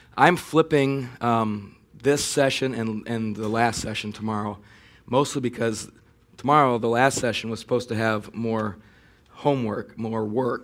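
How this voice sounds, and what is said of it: Strained, failing voice. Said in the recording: “My voice is just barely hanging in there. So can you guys hear me okay at this point?”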